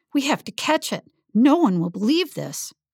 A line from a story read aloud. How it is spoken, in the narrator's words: Emma cried out